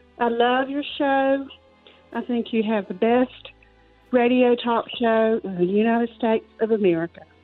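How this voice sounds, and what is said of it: Southern North Carolina accent. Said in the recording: “let's hear that Southern accent of yours... originally from North Carolina... I'm a true Southern, so I've tried to get rid of my accent by covering it up, but it just is not going to happen.”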